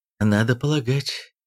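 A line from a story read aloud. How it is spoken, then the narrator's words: Dejected voice. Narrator (Russian): упавшим голосом отозвалась Гринет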